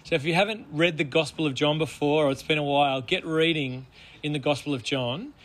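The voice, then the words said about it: Hoarse, gravelly voice. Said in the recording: “my voice is a little bit hoarse, ... because I've been screaming ... a little bit gravelly ... Gravelly.”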